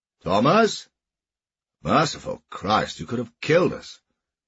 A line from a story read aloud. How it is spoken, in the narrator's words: The horseman called out